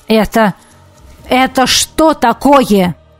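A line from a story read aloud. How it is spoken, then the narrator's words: Barked. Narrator (Russian): рявкнул он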